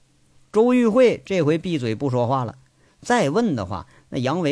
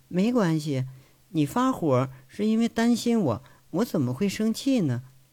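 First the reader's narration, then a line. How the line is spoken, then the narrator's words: Soft, calm voice. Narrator (Chinese): 周玉慧轻声说着，一点都没有生气的意思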